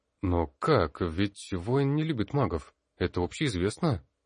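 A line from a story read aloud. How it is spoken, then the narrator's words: Bewildered. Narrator (Russian): Растерянно произнесла молчавшая до этого Таниса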